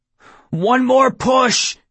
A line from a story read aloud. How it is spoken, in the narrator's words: I yelled